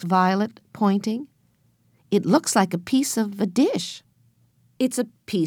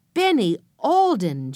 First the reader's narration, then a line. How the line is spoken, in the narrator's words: Joe almost shouted